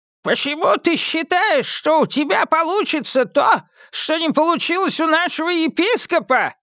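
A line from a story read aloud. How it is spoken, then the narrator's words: Piercing shout, spiteful old man. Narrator (Russian): пронзительно выкрикнул маленький седой старик с ехидным лицом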